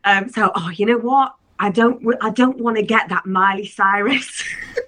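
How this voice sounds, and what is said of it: Bad put-on Cockney accent. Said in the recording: “this is my awful Cockney accent”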